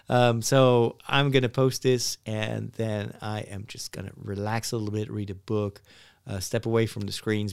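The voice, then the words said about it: Tired, low-energy voice. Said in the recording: “maybe you can tell by my voice, my battery is depleted. I'm kind of tired right now.”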